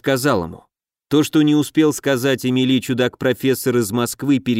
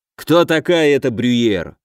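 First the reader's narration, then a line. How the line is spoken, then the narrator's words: Irritated curt remark. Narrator (Russian): раздраженно бросил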